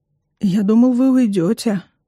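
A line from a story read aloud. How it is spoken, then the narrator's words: Hoarse voice. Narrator (Russian): говорит он сиплым с просунным голосом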